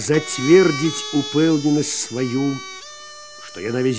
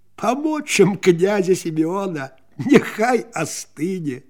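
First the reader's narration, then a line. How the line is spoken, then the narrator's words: Breathless laughter. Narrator (Russian): Одышевши, Ксюта засмеялась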